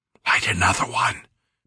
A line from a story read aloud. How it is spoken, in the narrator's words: Peter whispered